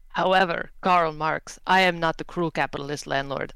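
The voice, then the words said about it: Hard-to-place put-on character accent. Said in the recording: “I don't know what this accent is anymore.”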